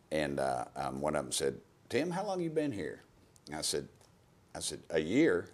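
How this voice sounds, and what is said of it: Southern American accent. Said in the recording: “it's that Southern accent... It's the Southern accent.”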